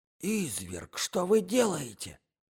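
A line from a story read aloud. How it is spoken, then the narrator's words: Young man's whisper. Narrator (Russian): прошептал молодой человек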